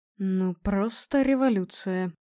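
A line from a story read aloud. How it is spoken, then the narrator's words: Muttering. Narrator (Russian): пробормотал профессор Иванченко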